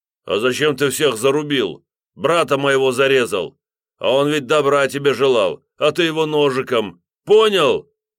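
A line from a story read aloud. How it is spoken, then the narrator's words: Big man shouting. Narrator (Russian): выкрикнул здоровяк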